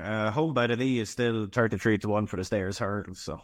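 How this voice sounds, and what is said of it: Speaks with a distinctive accent. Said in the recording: “love your accent”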